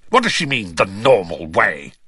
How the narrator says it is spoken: He spat

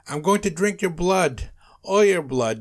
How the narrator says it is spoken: Nosferatu yelled

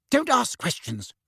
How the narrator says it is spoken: Aunt Petunia snapped

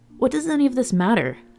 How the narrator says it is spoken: Seb said impatiently

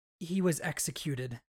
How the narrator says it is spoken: Syl said even more quietly

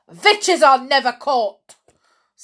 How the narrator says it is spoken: snapped the Grand High Witch

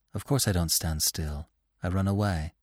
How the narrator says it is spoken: Bambi's mother answered gently

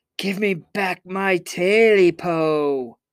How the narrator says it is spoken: Jake yelled back

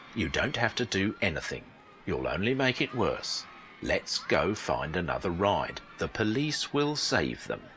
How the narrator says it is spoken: said gently and kindly

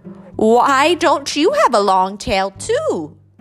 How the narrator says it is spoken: cried

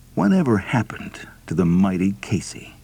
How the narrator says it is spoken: Somebody else will softly murmur the question

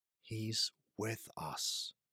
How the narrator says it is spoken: she repeated

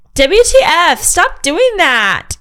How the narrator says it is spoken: EK shrieked

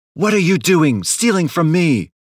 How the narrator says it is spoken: she yelled

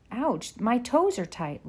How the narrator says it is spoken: Laura exclaimed

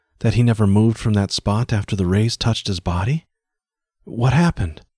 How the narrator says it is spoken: breathed the girl

